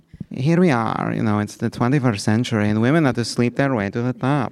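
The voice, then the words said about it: Arianna Huffington impression, Greek accent. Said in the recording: “I could used to be able to do Ariana Huffington... She's Greek.”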